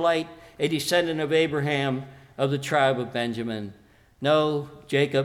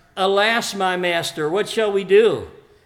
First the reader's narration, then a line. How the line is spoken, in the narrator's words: in words much like Jacob, the servant cried